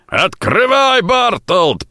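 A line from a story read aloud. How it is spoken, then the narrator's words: Booming voice. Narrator (Russian): прогремел чей-то голос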